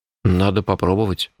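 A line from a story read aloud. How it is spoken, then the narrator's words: Sighing. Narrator (Russian): вздохнул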